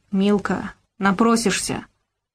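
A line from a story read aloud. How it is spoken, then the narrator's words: Menacing through gritted teeth. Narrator (Russian): Гаврош процедил угрожающе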